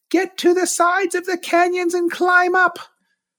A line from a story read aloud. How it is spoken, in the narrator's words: yelled